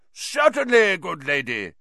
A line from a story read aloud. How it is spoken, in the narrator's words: cried Sir Cadogan